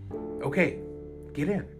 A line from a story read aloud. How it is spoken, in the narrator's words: the man said calmly